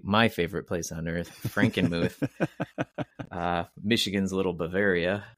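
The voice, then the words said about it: Sarcastic tone. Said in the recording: “I'm going to say this sarcastically,”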